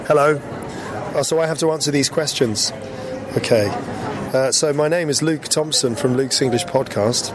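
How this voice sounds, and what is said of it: Hoarse, half-lost voice. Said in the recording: “I've lost my voice. Well, half of it. So if you're like, that's not ... it is. It's just the way that I'm speaking because I have a, uh, a, a bit of a cold or something.”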